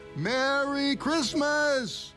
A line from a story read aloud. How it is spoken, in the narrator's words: shouted